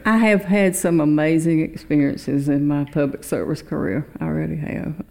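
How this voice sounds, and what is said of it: Rural Georgia Southern accent. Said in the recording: “You don't sound like you're from New York. ... the accent ... there's 159 counties in Georgia. ... he picked up on the one he was from by the accent.”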